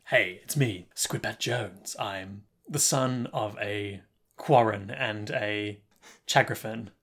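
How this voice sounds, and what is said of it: Detective-style character voice. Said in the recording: “He sounds like a detective.”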